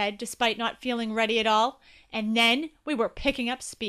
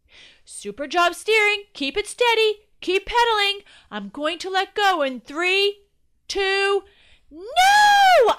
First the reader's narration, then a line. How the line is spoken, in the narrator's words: screamed